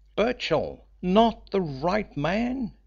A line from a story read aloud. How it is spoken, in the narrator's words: spluttered